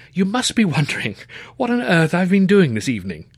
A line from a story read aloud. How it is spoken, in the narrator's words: he asked with a nervy laugh